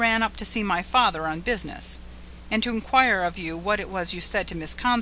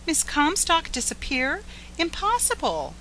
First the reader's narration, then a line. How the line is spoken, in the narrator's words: cried Edith Carr